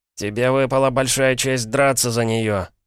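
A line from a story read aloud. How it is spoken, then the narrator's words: Grated through teeth. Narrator (Russian): проскрежетал он сквозь зубы Полу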